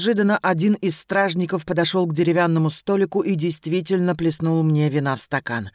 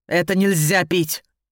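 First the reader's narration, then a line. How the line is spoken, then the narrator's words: Angry growl. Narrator (Russian): прорычал он, отчего-то жутко злясь на меня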